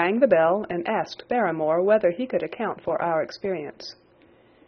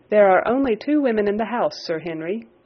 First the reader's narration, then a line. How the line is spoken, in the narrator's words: he answered